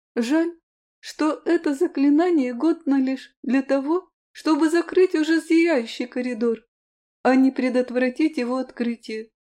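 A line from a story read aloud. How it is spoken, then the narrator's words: Excited squeak. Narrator (Russian): пискнула Роза взволнованно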